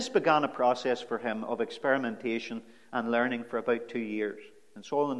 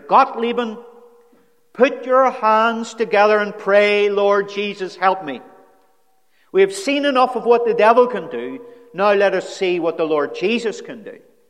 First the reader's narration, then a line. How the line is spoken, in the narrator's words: he shouted in her ear